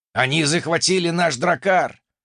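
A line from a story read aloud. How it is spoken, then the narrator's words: Roaring like wounded bison. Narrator (Russian): Раненым бизоном взревел недобитый викинг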